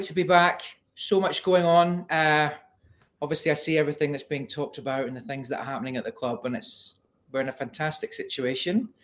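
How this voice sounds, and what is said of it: Put-on Scottish accent. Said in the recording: “Excuse the Scottish accent, it'll drift in and out ... that isn't his normal accent”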